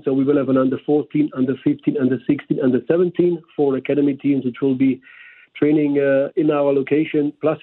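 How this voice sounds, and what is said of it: Slight German accent. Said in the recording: “From Germany, as maybe you picked up by the slight accent.”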